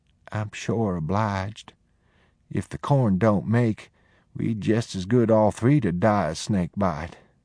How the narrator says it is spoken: She said meekly

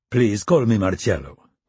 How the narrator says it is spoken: the man said with a light accent

